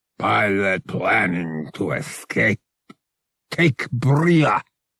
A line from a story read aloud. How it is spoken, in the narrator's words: growled